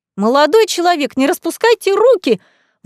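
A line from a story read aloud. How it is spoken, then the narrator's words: Sudden shriek. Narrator (Russian): Вдруг взвизгнула администраторша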